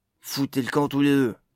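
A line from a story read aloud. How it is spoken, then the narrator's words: Harsh, cutting voice. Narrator (French): coupa-t-il d'une voix dure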